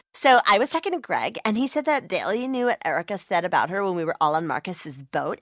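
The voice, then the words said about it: Imitates a reality TV star's voice. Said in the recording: “my impression of a reality TV star”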